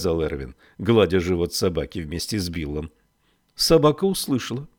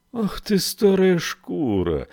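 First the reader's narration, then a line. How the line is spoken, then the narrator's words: Tender exclamation. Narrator (Russian): воскликнул нежно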